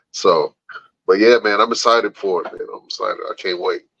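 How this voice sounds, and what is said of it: Slightly muddled, under-the-weather voice. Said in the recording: “trying to fight this bug ... if my voice sounds a little muddled”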